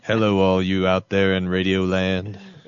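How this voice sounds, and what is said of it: Deep jazz radio DJ voice. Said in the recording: “a little bit under the weather. Can you tell? Because I have my jazz DJ voice today. ... I can sing the bass lines really well”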